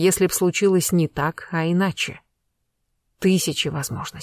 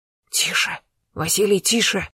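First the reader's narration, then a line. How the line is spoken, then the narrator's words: Hissing count. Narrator (Russian): зашипел граф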